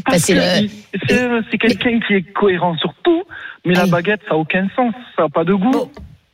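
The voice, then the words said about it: Slight regional French accent. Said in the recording (French): “on a le petit accent, en fait, j'adore”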